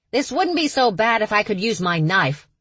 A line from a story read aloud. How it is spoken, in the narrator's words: one cousin complained, too loudly